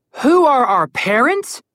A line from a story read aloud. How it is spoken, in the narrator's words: yelled Connor